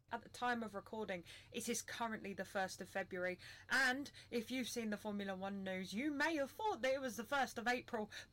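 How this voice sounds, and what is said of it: Panicked, anxious voice. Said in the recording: “You can probably hear the panic in my voice.”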